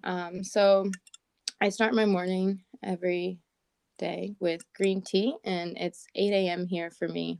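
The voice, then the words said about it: Raspy morning voice. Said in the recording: “I still got my little raspy voice on”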